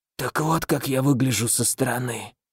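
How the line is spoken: Hoarse rasp. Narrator (Russian): прохрипел я

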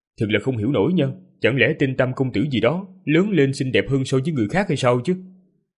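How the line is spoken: Sarcastic. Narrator (Vietnamese): không nhịn được mà nói một cách châm chọc

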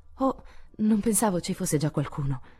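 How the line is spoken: Stammered. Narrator (Italian): balbettò Joe

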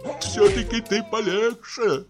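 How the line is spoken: Tearful voice. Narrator (Russian): проговорил плачущим голосом Почечуев

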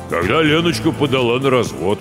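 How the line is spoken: Deep bass. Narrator (Russian): пробасил Гоша

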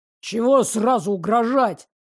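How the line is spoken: Muttering. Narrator (Russian): пробурчал Щербатый

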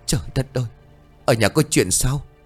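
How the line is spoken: Frightened, through clenched teeth. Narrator (Vietnamese): Lan cắn răng, mặt cũng đầy sợ hãi

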